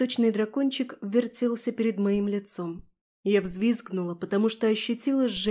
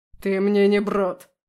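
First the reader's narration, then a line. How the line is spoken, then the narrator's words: Growled. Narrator (Russian): прорычал Аласдер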